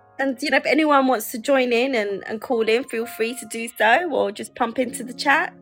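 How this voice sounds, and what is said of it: London accent. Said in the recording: “You could probably hear from my accent that I am from London”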